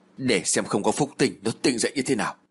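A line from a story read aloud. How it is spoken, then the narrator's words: Muttering. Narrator (Vietnamese): Duyên lẩm bẩm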